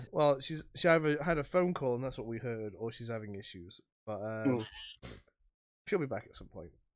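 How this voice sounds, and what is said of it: Rough, sick-sounding voice. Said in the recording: “As you can tell, winter is upon me, so my voice is fucked and I feel like hammered shit.”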